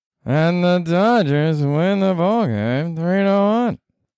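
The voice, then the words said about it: Impression of a baseball announcer. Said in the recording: “That was my impression of Vin Scully. So I'm not saying it was good. I'm not saying it was bad. It was all right.”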